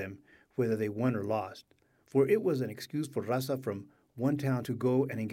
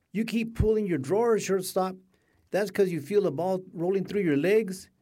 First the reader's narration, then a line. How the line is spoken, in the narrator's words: she shouted